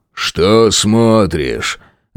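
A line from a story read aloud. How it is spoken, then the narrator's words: Rough thuggish question. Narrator (Russian): Грубо спросил у Патрика громилы из отряда незнакомки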